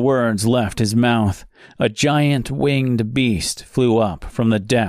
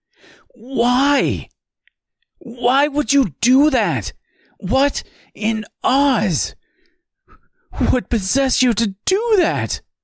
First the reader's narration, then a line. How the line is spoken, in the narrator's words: screamed Mister